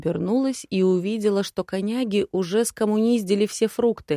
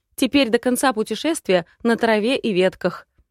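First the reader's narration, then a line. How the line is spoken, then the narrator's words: Loud snort. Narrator (Russian): Тень громко фыркнул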